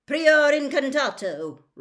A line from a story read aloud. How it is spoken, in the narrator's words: roared Mr